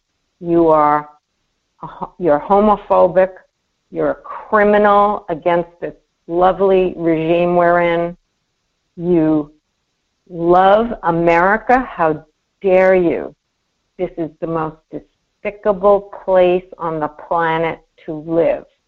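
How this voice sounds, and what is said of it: Sarcastic mocking tone. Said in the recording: “I'm being sarcastic”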